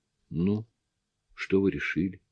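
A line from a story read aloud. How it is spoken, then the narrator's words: Quiet timid question. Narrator (Russian): Тихо, даже как-то робко спросил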